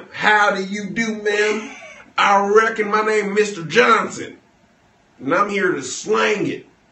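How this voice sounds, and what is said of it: Put-on Southern accent. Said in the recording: “I don't like southern accents. ... You ain't had a real Southern man.”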